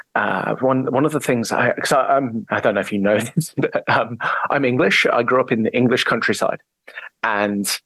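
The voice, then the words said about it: English accent with Australasian tinge. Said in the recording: “your accent is a little bit ... not ... English, ... quite there, is it? ... But you're in New Zealand or Australia”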